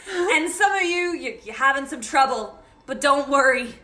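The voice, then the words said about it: Put-on character accent. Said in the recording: “I'm slipping back into my accent now.”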